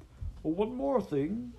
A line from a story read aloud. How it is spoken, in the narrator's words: Master Ephol shouted to them